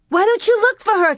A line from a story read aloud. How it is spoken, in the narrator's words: Carrie cried